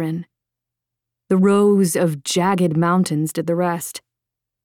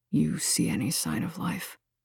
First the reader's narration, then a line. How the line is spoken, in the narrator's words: He asked softly, finally breaking the silence